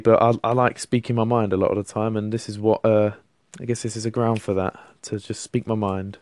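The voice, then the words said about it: London accent. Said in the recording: “I'm from London, as you can tell from my voice. Hopefully, I've got the London accent.”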